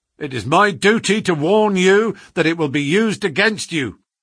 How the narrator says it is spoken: cried the inspector, with the magnificent fair play of the British criminal law

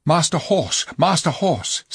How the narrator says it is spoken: said Tyrion, hastily

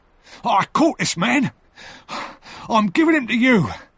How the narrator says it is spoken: he cried

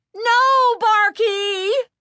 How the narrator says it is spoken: Chris shrieked in horror

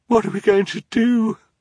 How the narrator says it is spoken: sobbed

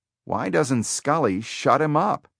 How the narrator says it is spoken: he heard someone whisper

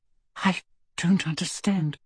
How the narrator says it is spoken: she whispered

